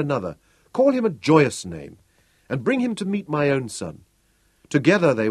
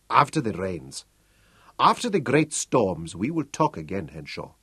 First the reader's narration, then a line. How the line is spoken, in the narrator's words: Butzo said quietly